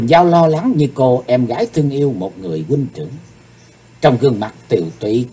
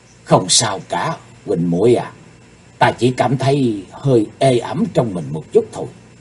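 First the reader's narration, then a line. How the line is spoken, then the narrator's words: Soft reply. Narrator (Vietnamese): Chí Tôn khe khẽ đáp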